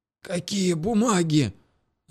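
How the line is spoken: Hoarse after coughing. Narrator (Russian): Откашлившись, прохрипел я

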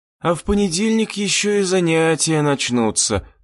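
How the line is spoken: Moaning. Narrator (Russian): простонала Мина

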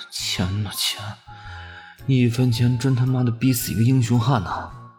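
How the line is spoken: Sorrowful inner lament. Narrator (Chinese): 安宗 心中悲叹道

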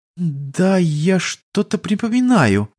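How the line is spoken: Uncertain young woman. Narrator (Russian): неуверенно отозвалась девушка

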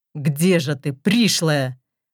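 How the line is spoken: Angry words through teeth. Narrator (Russian): Гневно цедит он сквозь зубы

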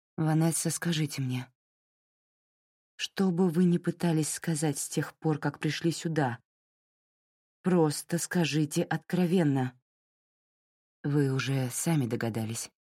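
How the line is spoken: Soft. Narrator (Russian): мягко произнесла Кастро

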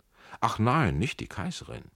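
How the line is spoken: Shout with ugly laugh. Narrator (German): rief er mit einem unschönen Lachen

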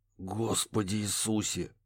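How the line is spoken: Muttering. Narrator (Russian): пробормотал Барри

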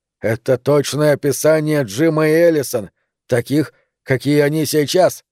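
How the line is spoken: Hollow, muffled. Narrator (Russian): сказал он глухо

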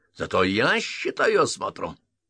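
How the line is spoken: Angry bark. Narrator (Russian): рявкнул Грейп с побагровевшим от злости лицом

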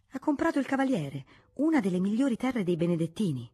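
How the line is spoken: Prompt exclamation. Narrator (Italian): Senza esitare un istante, Lucrezia esclamò

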